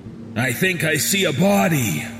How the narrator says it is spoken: the man on point exclaimed

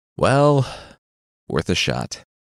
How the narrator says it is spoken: the demon said with a sigh

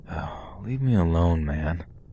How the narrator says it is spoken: call out sleepily

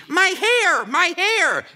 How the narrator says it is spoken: A woman is shrieking

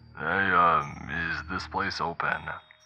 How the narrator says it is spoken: He slurred, obviously under the influence

